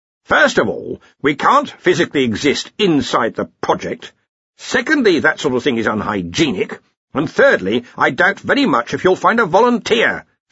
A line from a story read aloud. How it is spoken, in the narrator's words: said the arch-chancellor sharply